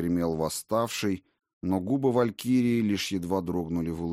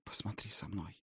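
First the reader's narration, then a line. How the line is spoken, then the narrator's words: Soft request. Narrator (Russian): мягко попросила она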